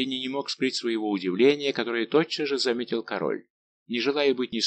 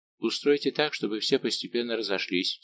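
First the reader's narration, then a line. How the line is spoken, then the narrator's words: Quiet. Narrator (Russian): сказал Мазарини тихо Людовику XIV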